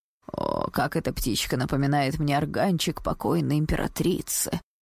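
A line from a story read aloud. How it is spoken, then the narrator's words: Sighing old courtier. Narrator (Russian): вздохнул один старый придворный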